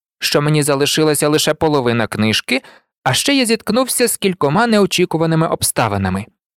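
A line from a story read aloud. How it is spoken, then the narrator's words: Calm declaration. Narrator (Ukrainian): спокійно виголосив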